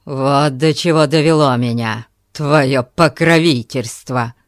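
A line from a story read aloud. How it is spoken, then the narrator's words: Threatening. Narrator (Russian): сказал он ей угрожающим тоном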